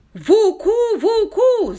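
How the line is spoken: Furious yell. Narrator (Russian): завопил он с почти дикой яростью

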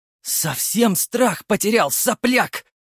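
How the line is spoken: Hissed. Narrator (Russian): прошипел он

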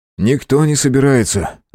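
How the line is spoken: Rude interruption. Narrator (Russian): оборвал ее достаточно грубо Андрей

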